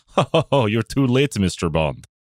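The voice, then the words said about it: Bond villain voice, Russian accent. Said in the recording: “your Bond villain, right? That you need the Russian accent for too.”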